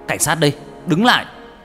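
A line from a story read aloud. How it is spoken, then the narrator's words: Shouted. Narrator (Vietnamese): hét lên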